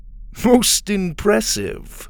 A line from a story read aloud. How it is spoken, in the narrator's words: Grebe chuckled